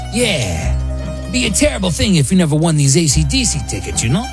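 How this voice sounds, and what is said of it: Terrible mobster voice. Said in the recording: “my mobster impression, and it's terrible”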